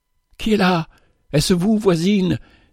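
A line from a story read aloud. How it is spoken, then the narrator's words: Sick woman exclaiming. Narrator (French): s'écria la malade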